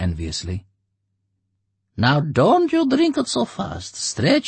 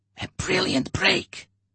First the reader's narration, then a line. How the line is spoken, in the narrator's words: someone whispered respectfully in the crowd